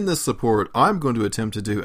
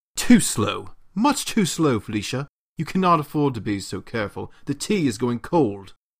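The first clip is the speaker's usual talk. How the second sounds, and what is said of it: Bad put-on British accent. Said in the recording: “a bad British accent”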